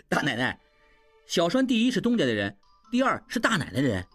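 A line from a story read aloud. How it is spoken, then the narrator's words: Beaming happily. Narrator (Chinese): 小栓一下子明白了，眉开眼笑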